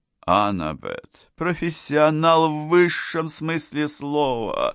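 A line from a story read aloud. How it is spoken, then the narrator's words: Plain. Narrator (Russian): ответил Герхардсен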